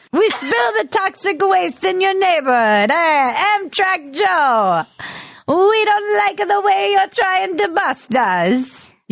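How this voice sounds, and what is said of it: Italian mob accent, slightly Caribbean. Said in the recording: “an Italian mafioso. this is my impression of someone in the mob ... that was veering a little bit into a Caribbean accent”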